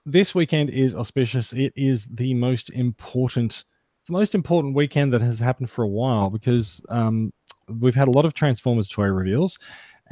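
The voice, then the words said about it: Slight Australian accent. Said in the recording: “with a slightly Australian accent.”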